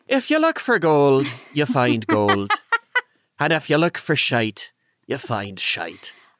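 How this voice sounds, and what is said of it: Failed attempt at Irish accent. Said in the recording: “I don't know if you had an Irish or a British accent. I do know that that wasn't an Irish accent, whatever I just did. ... it was neither.”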